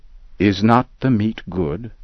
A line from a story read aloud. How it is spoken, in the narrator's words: Kish answered